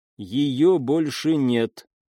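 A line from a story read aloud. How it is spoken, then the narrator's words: Plain. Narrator (Russian): сказала Сайна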